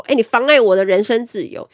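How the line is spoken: Angry, embarrassed. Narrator (Chinese): 客人恼羞成怒的说

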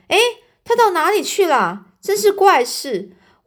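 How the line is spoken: Crying out in surprise. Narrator (Chinese): 车夫往车里面看，他就叫起来

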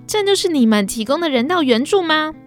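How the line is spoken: Shouting. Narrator (Chinese): 记者喊道

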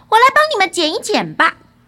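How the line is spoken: Loud son. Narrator (Chinese): 儿子大声地说道

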